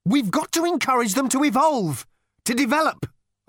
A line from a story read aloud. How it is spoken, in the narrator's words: Arthur burst out angrily